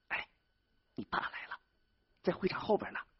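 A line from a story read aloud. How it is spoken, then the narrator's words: Low voice. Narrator (Chinese): 金波 低声说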